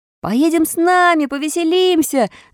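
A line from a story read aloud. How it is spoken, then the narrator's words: Several voices shouting. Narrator (Russian): закричало несколько голосов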